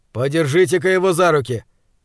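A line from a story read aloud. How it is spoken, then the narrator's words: Demanding. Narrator (Russian): требовательным тоном произнес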